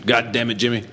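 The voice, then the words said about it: Imitates another person's voice. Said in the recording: “That's my bunk impression.”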